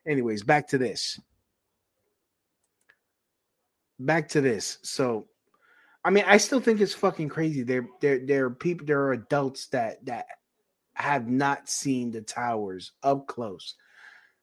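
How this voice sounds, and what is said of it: New York City accent. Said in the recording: “the people that were born here, that have the fucking accent like I do”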